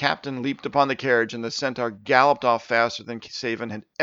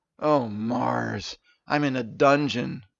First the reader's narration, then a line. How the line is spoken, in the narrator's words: Steven muttered to himself